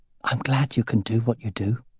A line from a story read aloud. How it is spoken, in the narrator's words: she whispered